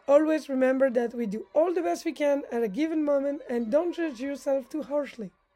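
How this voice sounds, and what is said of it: French accent. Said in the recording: “your speaker with a French accent”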